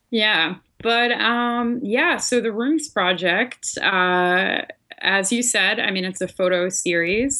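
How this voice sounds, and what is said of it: Slight Philadelphia accent. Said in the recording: “a slight Philly accent hanging in there somewhere”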